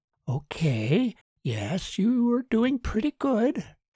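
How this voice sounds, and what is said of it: Diplomatic, placating tone of voice. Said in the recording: “in her diplomatic voice”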